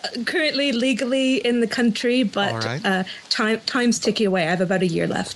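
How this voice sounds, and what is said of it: North American with adopted English accent. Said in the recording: “you have adopted an English accent that you're going to have to explain to your family when you go home.”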